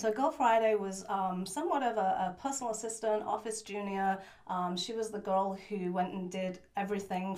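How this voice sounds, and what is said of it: Northeast English accent. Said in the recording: “has a bit of an accent. She is not American born. ... I was born in a town called Middlesbrough in the northeast of England.”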